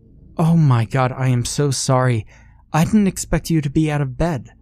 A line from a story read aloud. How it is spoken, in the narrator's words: the nurse gasped